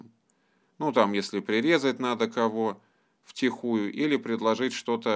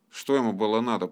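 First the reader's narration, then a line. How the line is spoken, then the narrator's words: Grumbling bear cub. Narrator (Russian): проворчал медвежонок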